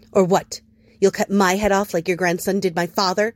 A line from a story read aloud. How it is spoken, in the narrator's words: She spat at him, a cub trying to bite with milk teeth